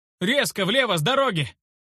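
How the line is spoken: Urgent shout. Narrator (Russian): Сумел крикнуть я

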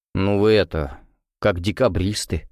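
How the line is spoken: Smirking. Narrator (Russian): хмыкнул Максим

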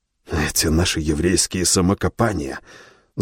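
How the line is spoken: Angry, self-interrupting. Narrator (Russian): Зло перебил себя Шпильман

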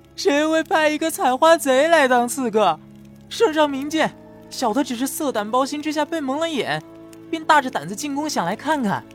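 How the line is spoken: Wailing protest. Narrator (Chinese): 刺客被压着脸贴在地上，哭天喊地的叫冤

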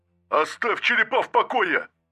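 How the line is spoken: Roared over vox. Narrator (Russian): проревел он в вокс

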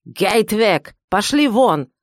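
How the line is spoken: Angry bark. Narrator (Russian): гаркнул, побагровев, Вахмайстер

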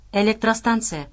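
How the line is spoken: Plain. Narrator (Russian): ответил Дмитрий

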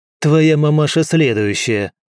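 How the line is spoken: Snapping retort. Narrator (Russian): огрызнулся Кросс

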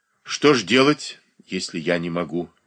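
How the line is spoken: Plain. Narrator (Russian): ответила та

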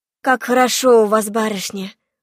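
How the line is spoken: Deep contented sigh. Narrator (Russian): вздохнула полной грудью Авдотья

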